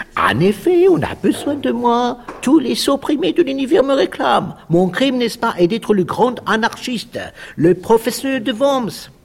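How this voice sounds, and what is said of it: Strong put-on German accent. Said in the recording (French): “avec un fort accent germanique”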